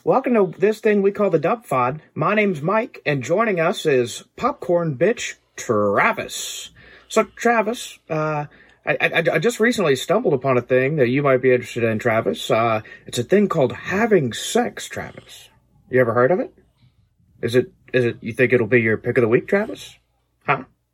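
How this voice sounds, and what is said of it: Impression of a podcast host. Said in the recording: “I thought it was a terrible impression of me... do you think this is a good impression of me?”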